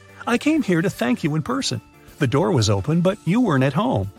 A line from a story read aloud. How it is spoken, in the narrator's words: the woman says